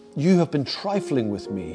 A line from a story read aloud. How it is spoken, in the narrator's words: he cried